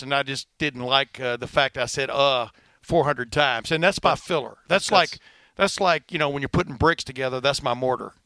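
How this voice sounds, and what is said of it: Fast speech, slight Southern twang. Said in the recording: “fast and a little bit of a southern. A little bit of a southern twang”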